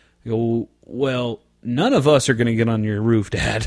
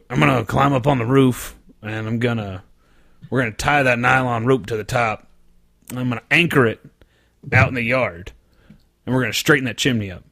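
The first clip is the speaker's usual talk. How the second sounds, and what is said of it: Imitates another person's voice. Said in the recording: “I'm gonna do my dad voice”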